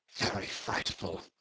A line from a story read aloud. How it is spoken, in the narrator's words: he murmured